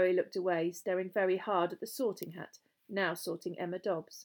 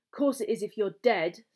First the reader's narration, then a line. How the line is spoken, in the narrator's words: snapped Ron